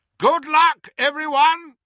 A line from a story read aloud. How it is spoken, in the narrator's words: shouted Moody